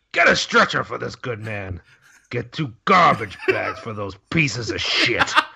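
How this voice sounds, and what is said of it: Imitates another person's voice. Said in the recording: “your best Robert Loggia impression ... I don't know that I have a good Robert Loggia”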